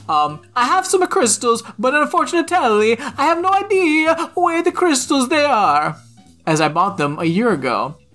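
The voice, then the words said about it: Deliberately bad Italian accent. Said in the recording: “read in a very, terrible Italian accent”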